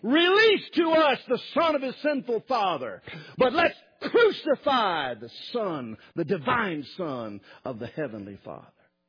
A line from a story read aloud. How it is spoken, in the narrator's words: The people are screaming